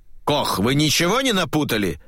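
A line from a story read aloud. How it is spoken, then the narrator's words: Irritated shout. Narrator (Russian): раздраженно выкрикнул офицер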